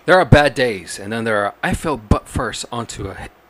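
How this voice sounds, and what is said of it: Newscaster voice. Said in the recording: “you got to do it in like a newscaster voice”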